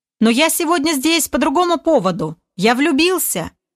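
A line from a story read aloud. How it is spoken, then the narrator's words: Yelling at full strength. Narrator (Russian): Что есть мочи, заорал Олег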